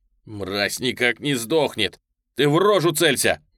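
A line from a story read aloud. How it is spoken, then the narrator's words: Shout. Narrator (Russian): крикнул я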